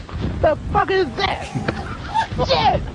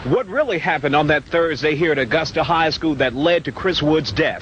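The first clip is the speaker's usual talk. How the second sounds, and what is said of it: Polished sports announcer voice. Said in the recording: “he starts as a very Bryant Gumbel voice, you know, a very sports announcer voice”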